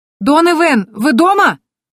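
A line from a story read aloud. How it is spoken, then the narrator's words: Shouting. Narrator (Russian): закричала я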